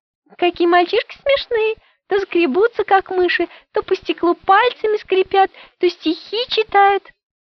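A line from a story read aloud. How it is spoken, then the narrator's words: Giggling girl. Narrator (Russian): Леночка стала хихикать и говорит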